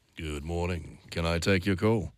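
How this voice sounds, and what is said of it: Creepy-sounding phone receptionist voice. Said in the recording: “his voice sounds a little like this ... that just sounds a bit creepy ... That's a bit creepy”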